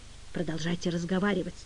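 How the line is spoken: Whisper. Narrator (Russian): прошептал он

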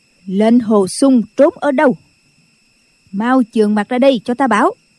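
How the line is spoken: Nun shouting loudly. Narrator (Vietnamese): Định Vật sư thái quét mắt nhìn hết mọi người rồi lớn tiếng quát

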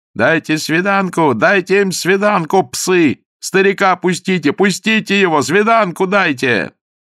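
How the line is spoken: Shrill yelling crowd. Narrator (Russian): вопили визгливыми голосами

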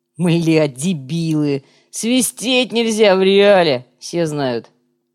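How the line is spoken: Deep bass voice. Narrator (Russian): Коряга пробасил

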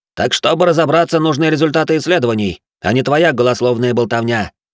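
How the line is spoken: Snapping retort. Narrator (Russian): огрызнулся Семенов

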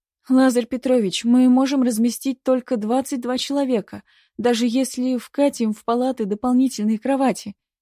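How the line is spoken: Moaning. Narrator (Russian): простонала сестричка

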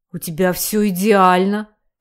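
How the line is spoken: Deep bass. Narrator (Russian): пробасил тот в ответ

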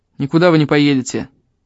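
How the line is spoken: Rough, harsh. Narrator (Russian): грубо сказал он

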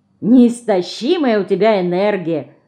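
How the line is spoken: Laughing. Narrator (Russian): засмеялся Леня

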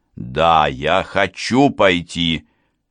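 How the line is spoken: Snapping, resentful. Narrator (Russian): огрызнулась я, ненавидя то, что он по-прежнему так хорошо меня знает

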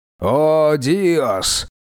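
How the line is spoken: High priest muttering. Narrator (Russian): пробормотал верховный жрец Кета и бесоглавого бога справедливости

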